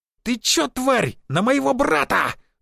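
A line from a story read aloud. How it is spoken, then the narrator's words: Shrill scream. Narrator (Russian): завизжал более скромный в теле лысый наемник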